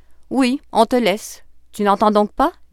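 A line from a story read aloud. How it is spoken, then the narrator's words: Plain. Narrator (French): dit un gendarme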